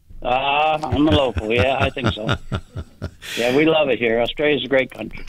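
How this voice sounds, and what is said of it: American accent, Upstate New York. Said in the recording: “that lovely accent of yours, United States? ... Upstate New York, near the Canadian border.”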